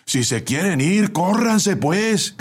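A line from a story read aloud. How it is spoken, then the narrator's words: Shouted from outside. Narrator (Spanish): gritó el ayudante desde afuera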